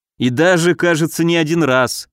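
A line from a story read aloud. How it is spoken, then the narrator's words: Wry snort. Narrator (Russian): хмыкнул я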